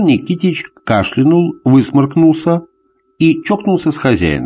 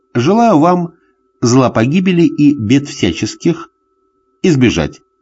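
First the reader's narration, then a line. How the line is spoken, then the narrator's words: Joking quip. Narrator (Russian): сострил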